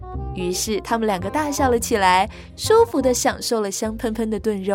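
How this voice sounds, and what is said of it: Usual voice. Nothing is said of it.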